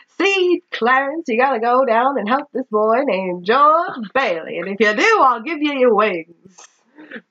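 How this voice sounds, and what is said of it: Old-timey 1920s salesman voice. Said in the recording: “your god is like a 1920 newspaper ... salesman ... doing my old ... voice ... I feel like I should have a cigar”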